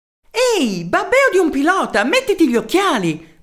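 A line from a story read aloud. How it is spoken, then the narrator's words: Furious shout. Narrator (Italian): gridò Merelao infuriato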